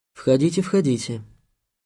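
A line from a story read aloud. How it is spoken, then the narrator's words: Quiet call. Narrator (Russian): негромко позвали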